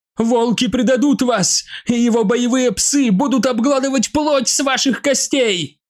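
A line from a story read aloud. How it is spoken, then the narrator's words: Shout. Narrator (Russian): закричала Калиста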